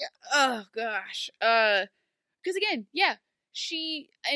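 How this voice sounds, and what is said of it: Usual voice. Nothing is said of it.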